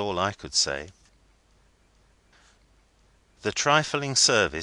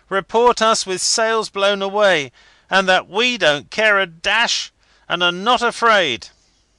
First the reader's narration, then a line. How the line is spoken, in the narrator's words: they cried